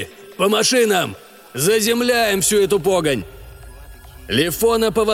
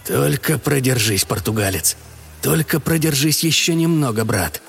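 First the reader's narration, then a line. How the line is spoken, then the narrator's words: Whisper. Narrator (Russian): прошептал Григорий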